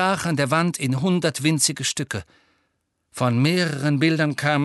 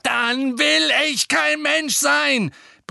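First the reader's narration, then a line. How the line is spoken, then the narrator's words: Roared. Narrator (German): brüllte Harry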